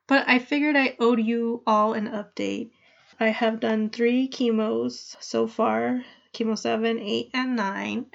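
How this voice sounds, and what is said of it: Nasal, congested voice from cold. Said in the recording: “I have a cold, so I may sound a little nasally in this episode.”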